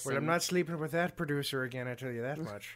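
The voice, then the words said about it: Passable put-on Irish accent. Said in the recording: “That was an okay Irish accent, I guess ... It should have been a Yorkshire accent.”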